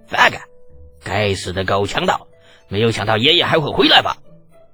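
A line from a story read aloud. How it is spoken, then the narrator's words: Faint amused smile. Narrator (Chinese): 李浩淡笑着说道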